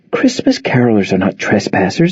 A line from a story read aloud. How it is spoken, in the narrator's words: Nora insisted, practically whispering